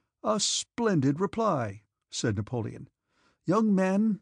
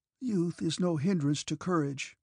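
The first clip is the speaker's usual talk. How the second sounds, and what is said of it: Weak, faltering muttered voice. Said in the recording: “muttered Sukhtelen in a failing voice”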